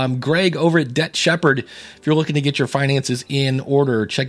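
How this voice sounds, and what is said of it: Usual voice. Nothing is said of it.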